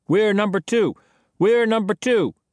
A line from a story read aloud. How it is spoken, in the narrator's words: Jack called out